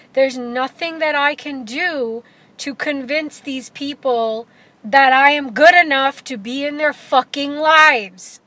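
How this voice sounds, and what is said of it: Speaking louder, emphatic. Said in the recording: “that's why I'm kind of saying it louder.”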